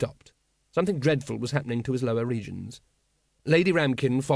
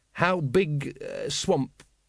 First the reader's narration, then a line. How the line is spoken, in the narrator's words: faltered